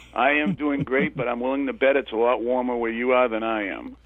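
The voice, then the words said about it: Slight Maine and Boston accent. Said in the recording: “Do I sense, a Boston accent, maybe? ... Yeah, just a little bit. ... It's Maine and Boston together, actually.”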